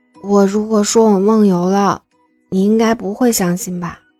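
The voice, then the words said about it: Speaking quietly, in a soft voice. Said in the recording (Chinese): “小声地说道”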